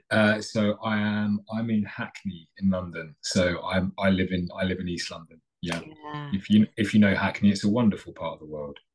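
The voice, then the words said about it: Non-American, London English accent. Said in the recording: “people might be able to tell from your accent that you are not, in fact, in Detroit”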